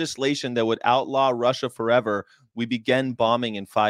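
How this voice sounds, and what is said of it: Usual voice. Nothing is said of it.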